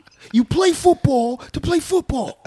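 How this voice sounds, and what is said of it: Denzel Washington impression. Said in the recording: “I'm no Denzel impersonator... that was pretty good. That wasn't bad... I felt the passion.”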